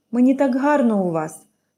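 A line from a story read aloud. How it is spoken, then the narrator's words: Happy sigh. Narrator (Ukrainian): радісно зітхнула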